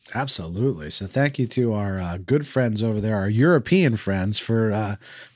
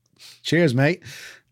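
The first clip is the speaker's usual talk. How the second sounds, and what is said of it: Australian-sounding accent. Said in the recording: “That sounded Australian, I feel like.”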